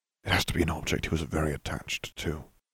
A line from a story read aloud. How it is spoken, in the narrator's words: Harry whispered